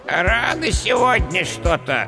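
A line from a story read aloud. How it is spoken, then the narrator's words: Displeased creaky skeleton voice. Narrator (Russian): недовольно проскрипел скелет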